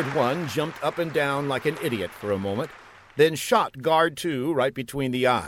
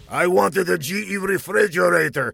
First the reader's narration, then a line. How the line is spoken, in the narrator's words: he spat